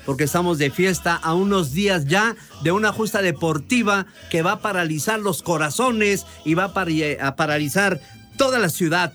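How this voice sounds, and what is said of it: Sports narrator announcer voice. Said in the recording (Spanish): “La voz de narrador.”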